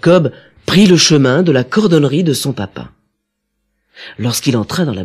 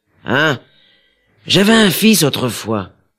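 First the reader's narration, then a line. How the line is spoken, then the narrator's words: Sighing father. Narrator (French): répondit son père en soupirant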